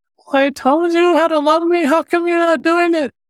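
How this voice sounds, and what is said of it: Whiny voice. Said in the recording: “this whiny voice”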